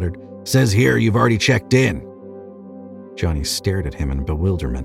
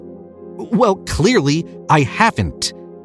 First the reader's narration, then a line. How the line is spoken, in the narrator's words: he snapped